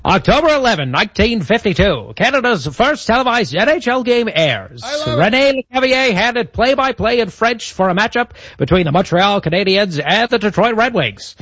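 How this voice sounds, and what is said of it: Old-timey radio announcer voice. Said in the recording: “your old-timey radio voice for hockey ... do the next bit in the old-timey radio voice”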